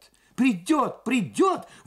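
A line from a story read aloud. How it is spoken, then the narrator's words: Two women exclaiming in unison. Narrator (Russian): в один голос воскликнули обе машинистки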